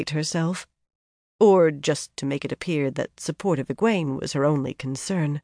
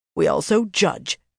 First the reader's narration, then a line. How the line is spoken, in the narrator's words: Delana snapped